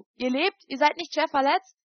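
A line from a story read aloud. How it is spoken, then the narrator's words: Calling out. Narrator (German): rief ich ihm zu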